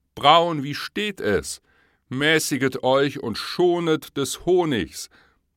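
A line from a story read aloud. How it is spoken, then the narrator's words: Calling out. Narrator (German): Reineke rief er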